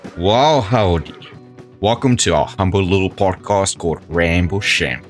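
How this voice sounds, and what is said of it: Put-on cowboy drawl. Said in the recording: “why I'm speaking in this particular dialect for this episode ... cowboys exhibit or demonstrate the best confidence”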